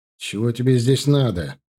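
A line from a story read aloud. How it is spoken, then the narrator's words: Irritated question. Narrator (Russian): раздраженно спросил Иван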